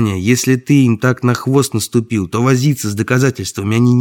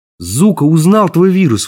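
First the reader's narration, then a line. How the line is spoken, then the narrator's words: Exclaimed. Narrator (Russian): воскликнул я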